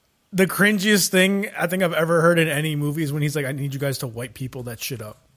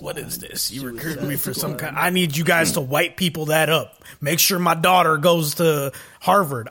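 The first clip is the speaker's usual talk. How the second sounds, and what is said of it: Put-on redneck accent. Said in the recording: “I don't know why I'm giving Will Smith a redneck accent.”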